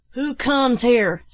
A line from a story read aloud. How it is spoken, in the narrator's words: shouted one